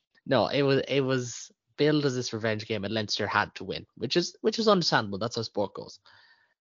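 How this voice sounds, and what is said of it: Thick Galway Irish accent. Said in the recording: “a nice thick Galway accent”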